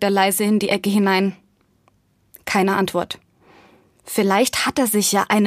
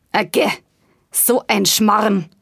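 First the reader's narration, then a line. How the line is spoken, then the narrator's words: Grumbling voice. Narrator (German): brummt die Stimme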